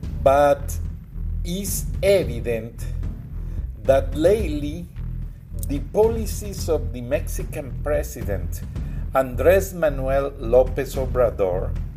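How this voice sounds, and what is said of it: Heavy Mexican Spanish accent. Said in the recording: “my broken and heavy accent ... I am born in Mexico”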